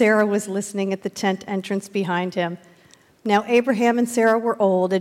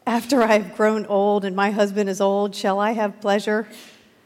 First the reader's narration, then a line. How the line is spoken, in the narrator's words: laughed to herself, saying